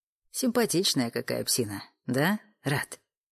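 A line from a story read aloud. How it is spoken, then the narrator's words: Quiet snort. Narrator (Russian): Тихо хмыкнул Олег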